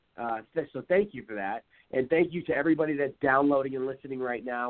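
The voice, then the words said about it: Hoarse, strained voice. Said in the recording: “losing my voice.”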